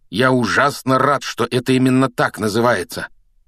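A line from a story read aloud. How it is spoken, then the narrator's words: Growling. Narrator (Russian): прорычал Рон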